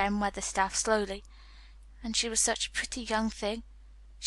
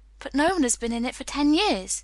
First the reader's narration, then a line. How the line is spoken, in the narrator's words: cried Colin